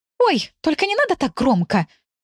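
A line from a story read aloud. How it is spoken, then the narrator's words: Hiss. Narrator (Russian): Зашипела на него Тамара Ивановна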